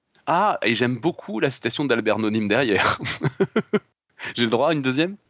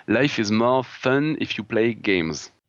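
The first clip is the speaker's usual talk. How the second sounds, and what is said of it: Put-on English accent. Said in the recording (French): “Bel accent anglais ... mon accent anglais, vous allez pas être déçus ... il est pas pire que le mien”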